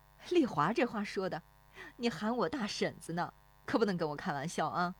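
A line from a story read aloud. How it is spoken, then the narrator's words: Laughing along. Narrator (Chinese): 那妇女跟着笑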